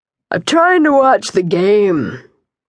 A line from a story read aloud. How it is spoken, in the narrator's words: he yawned